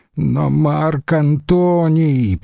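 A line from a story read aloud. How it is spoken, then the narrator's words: Groan. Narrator (Russian): простонал Агенобарб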